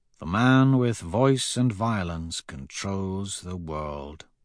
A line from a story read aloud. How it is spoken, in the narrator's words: I murmur